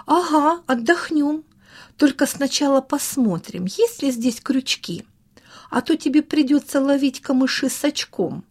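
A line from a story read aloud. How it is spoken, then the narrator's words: Laughing. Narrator (Russian): засмеялся Саша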